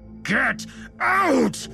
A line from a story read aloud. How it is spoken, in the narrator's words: Lewis yelled